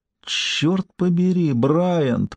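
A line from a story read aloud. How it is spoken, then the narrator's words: Moaning. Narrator (Russian): простонала Ким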